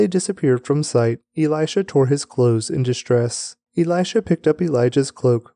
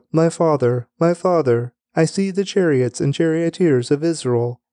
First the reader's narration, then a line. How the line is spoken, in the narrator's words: Elisha cried out